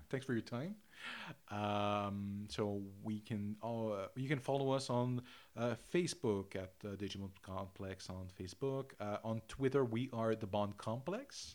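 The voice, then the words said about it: Thick accent. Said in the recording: “my accent is a little bit thicker than usual”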